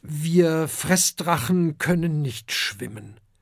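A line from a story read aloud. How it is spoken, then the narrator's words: Plain. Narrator (German): antwortet Oskar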